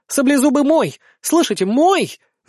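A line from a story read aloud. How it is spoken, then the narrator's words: Shriek. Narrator (Russian): взвизгнула принцесса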